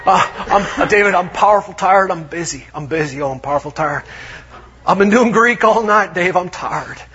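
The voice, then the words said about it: Put-on Texan accent, tired drawl. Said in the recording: “For those of you in Texas, from Texas, I thoroughly apologize for that wretched accent of mine.”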